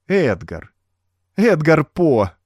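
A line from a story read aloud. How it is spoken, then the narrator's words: Cheerful laughter. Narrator (Russian): весело засмеялась она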